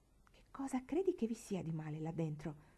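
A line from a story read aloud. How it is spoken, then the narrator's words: Whispering in ear. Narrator (Italian): bisbigliò all'orecchio di Marigold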